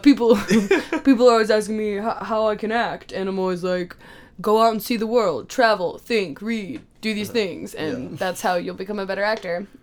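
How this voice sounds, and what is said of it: Imitates another person's voice. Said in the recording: “This is my Alan Rickman impression. It's very good.”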